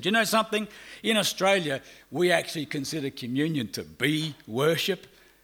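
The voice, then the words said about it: Australian accent. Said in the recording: “I'm from Australia. You can probably guess because of my accent.”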